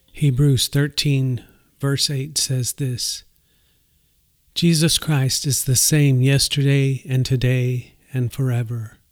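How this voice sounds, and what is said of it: Voice audibly affected and strained. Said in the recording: “you can probably tell from my voice that I'm dealing with the symptoms of Parkinson's disease... it's quite evident and apparent to me that the effects of the disease are taking a toll on my voice”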